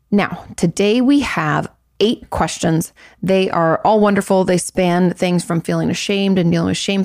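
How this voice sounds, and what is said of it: Hoarse, slightly raspy voice. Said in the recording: “If my voice sounds a little hoarse, it's because two of our good friends got married this last weekend. And between the singing and the screaming and the shouting and the just talking, my voice is a little bit raspy”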